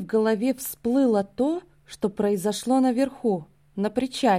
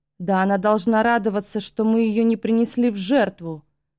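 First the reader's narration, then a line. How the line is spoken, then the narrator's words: Furious roar. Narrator (Russian): взревел вождь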